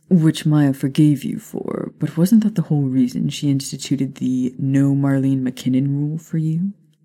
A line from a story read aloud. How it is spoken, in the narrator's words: Sirius groaned